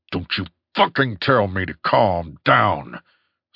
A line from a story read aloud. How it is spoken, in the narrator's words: snarled Top